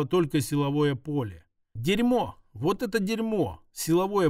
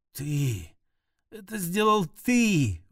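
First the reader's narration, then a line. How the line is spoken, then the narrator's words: Breathless. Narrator (Russian): выдохнула она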